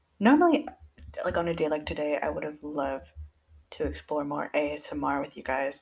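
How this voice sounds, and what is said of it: Quiet, soft-spoken voice. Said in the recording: “I'm going to be speaking in a more quiet voice today.”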